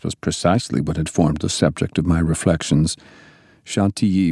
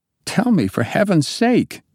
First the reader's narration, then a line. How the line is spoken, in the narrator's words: I exclaimed